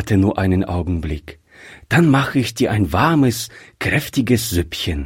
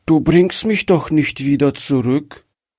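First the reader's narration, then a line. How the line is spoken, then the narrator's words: Weak, frightened child's question. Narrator (German): fragte das Kind ängstlich mit schwacher Stimme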